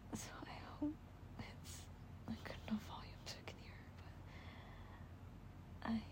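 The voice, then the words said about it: Whispering. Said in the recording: “I'm whispering. I'm whispering. I hope my microphone picks this up, but I keep whispering.”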